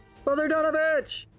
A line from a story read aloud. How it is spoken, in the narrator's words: the force of his scream ripples out in a thunder wave